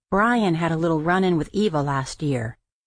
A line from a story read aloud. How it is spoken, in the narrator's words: Felix sighed, then said to me